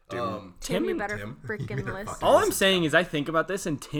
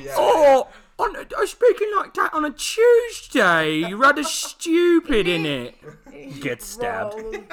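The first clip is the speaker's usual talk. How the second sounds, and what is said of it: Fake British accent. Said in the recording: “these Americans and their stupid British accents”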